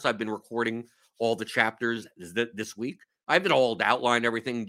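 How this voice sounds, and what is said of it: Slightly hoarse voice. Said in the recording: “my throat is a little hoarse.”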